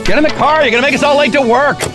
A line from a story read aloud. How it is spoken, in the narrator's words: someone yelled